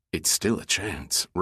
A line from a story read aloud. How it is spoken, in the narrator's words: Roman said quietly